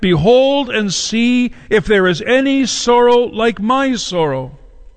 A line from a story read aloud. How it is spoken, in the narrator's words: she called out to those who passed by